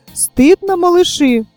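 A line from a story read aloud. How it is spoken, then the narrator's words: Exclaiming. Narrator (Russian): воскликнула Синеглазка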